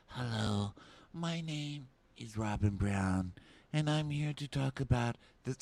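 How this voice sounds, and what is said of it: Whispery imitated voice. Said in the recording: “why are you talking like that? She's like whisper talking.”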